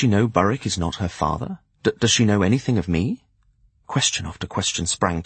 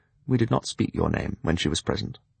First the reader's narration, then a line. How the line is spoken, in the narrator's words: He added quietly